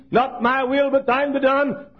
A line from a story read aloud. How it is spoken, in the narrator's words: cried the Father's own Son